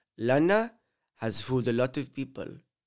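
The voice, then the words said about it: Put-on Spanish accent. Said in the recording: “let me whip out my Spanish accent. ... Oh no, it's getting offensive.”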